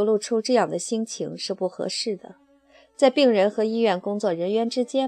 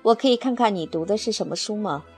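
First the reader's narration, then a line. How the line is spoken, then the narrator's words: Plain. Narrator (Chinese): 菲利普问道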